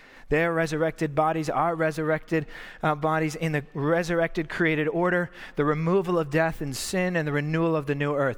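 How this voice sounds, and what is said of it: Talking very fast. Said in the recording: “I'm talking really fast”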